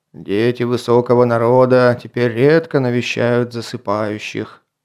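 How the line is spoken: Booming voice from sarcophagus. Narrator (Russian): прогудел голос из этого саркофага

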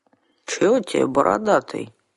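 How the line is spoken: Calm mumbling. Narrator (Russian): невозмутимо пробурчал домовичонок

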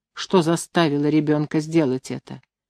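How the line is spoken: Demanding question. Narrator (Russian): требовательным тоном спросил он

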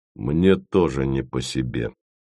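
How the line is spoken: Quick, bored voice. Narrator (Russian): сразу отозвался Яровой скучным голосом

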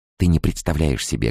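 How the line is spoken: Quiet hurried speech. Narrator (Russian): говорила я тихо и быстро, стараясь вместить как можно больше полезной информации в отпущенные мне секунды

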